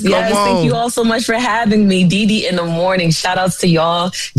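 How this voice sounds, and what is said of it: New York / New Jersey accent. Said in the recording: “I love that accent, though. Y'all hear her accent? That's that real New York accent ... That's that Jersey.”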